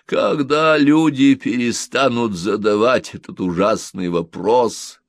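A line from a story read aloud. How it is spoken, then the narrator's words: Groaning. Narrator (Russian): простонал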